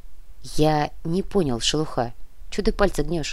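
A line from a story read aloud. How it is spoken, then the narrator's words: Quiet. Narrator (Russian): тихо произнес наемник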